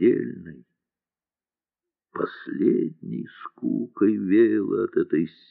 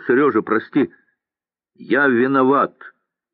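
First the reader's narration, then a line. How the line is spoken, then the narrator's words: Shout. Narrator (Russian): крикнул он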